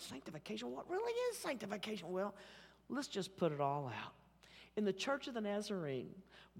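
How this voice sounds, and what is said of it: Oklahoma City accent. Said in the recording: “my Oklahoma City accent”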